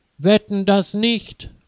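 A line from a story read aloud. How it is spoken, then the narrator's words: Angry call. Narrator (German): ruft Florian ärgerlich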